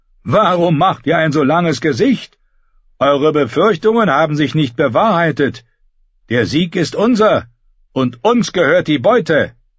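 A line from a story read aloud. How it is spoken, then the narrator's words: Calling out. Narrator (German): rief er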